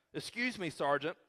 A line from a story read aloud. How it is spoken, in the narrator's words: I said